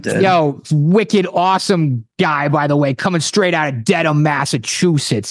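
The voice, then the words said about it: Boston accent. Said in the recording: “Whipping out the Boston accent there?”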